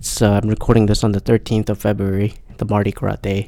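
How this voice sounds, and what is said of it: Tired, low-energy voice. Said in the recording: “my voice is a little down ... I'm hella exhausted”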